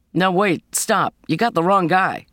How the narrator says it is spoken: called out

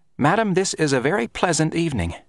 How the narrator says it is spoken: Grinder in a kindly tone

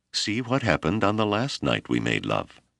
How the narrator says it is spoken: She laughed softly and said

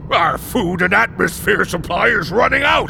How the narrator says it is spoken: shouted Lord Dom

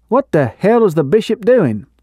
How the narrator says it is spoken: Abner exclaimed

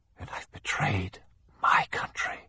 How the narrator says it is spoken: Zacharias whispered

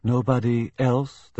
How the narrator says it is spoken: asked evenly

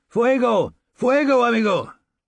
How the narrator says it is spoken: I shouted inside

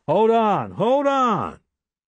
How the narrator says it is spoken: shouted

